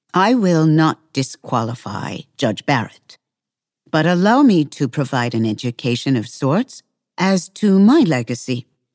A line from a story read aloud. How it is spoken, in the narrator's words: Ginsburg continued calmly